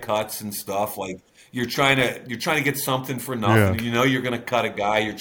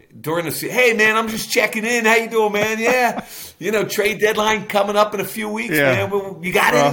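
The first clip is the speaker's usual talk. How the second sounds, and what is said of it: Imitates another person's voice. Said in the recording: “It's a different flavor for sure than Bill... it's actually a pretty good impression. I mean, it's pretty damn good. It's like you've been on the phone with him a bunch.”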